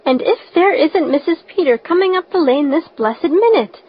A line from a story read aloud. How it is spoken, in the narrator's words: exclaimed Mrs